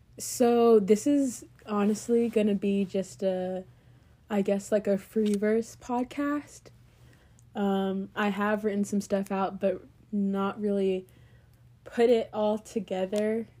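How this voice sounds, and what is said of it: Weird-sounding voice, like a cold. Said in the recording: “my voice sounds weird. I am recovering from a cold”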